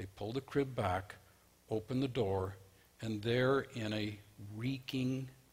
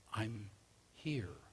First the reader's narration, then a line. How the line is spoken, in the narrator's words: a voice that said, quietly, fearfully